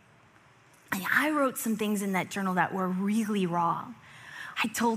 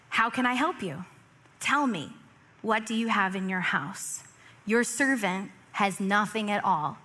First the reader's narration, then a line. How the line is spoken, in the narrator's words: she said